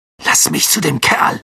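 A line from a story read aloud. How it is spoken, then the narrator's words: Growling. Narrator (German): knurrte Ron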